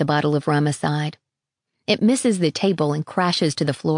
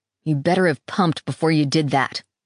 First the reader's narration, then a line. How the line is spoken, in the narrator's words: he snaps